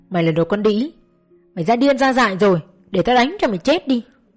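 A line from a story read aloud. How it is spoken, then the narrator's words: Mother screaming while beating. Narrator (Vietnamese): Mẹ tôi cầm dây thừng quật vào tôi, bà vừa quật vừa gào lên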